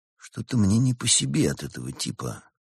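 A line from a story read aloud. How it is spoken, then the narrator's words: Whispered. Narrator (Russian): шепотом сказал друзьям Константин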